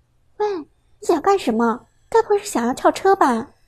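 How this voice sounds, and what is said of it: Quiet, hushed voice. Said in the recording (Chinese): “小声说道”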